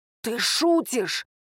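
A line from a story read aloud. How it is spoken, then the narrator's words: Hissed. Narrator (Russian): прошипел Салаат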